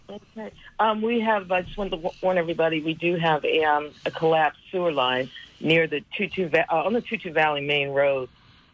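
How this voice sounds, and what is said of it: Unwell, under-the-weather voice. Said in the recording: “Please excuse my voice. I'm a little under the weather this morning”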